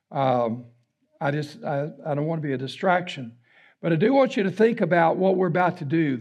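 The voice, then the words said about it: Raspy voice. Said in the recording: “the raspy voice”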